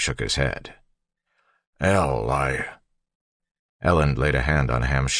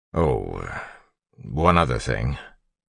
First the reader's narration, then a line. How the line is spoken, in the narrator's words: Ellen said hesitantly